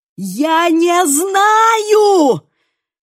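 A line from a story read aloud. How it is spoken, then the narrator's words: Full-force shout. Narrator (Russian): крикнул изо всех сил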